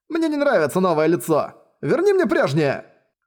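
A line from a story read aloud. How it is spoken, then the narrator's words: Man shouting. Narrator (Russian): Ползая у ее ног, кричал мужчина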